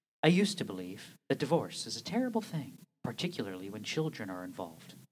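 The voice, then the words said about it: Mock public-radio announcer voice. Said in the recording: “I'm gonna do this in my annoying, annoying NPR voice ... little NPR, little William Shatner”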